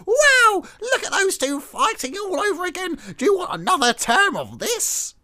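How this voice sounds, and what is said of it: Old-time gold prospector voice. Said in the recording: “your Nick Clegg impression ... That was like a gold prospector from the 1920s.”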